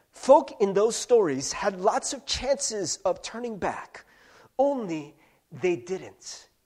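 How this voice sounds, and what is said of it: Weak Samwise Gamgee impression. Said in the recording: “I'm really bad at accents, by the way. This is not a very good Samwise Gamgee impression.”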